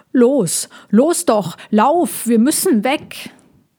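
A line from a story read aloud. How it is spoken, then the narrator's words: Hedgehog squawking, bellowing in ear. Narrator (German): Der Igel quäkte und brüllte in Molchis Ohr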